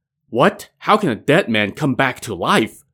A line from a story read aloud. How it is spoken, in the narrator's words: exclaimed a stunned